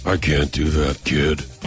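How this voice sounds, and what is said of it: Deep-voiced imitation of another person. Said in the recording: “do your deep voice ... don't open your mouth very big ... Hey, that's not bad ... That is as good.”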